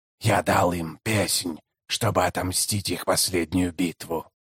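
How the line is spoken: Hoarse rasp. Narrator (Russian): прохрипел он

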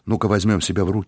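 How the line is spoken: Plain. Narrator (Russian): сказал он

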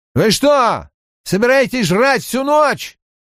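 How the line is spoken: Barked. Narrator (Russian): рявкнул Хейк

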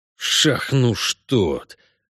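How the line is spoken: Cursing through gritted teeth. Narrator (Russian): выругался ведьмак сквозь зубы

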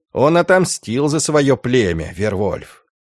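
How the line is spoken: Stern gloomy question. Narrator (Russian): хмурый Волда, строго спросил

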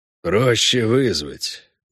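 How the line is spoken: Gloomy. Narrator (Russian): мрачно сказал Хорн

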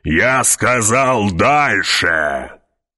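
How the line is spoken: Roared. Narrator (Russian): проревел барон

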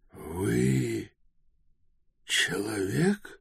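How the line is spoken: Hoarse mutter. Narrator (Russian): хрипло пробормотал он

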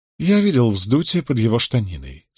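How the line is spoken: Calm. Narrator (Russian): спокойно произнес Мэтью

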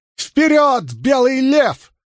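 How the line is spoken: Yelled. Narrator (Russian): заорала Илэйн

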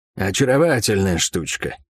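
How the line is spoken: Thief's smirking snort. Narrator (Russian): хмыкнул вор

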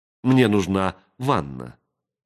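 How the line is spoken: Plain. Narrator (Russian): сказала Денна

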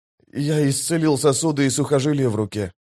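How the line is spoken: Quiet. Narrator (Russian): тихо сказал он

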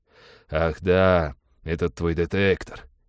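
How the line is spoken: Relieved sigh. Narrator (Russian): облегченно вздохнул пилот

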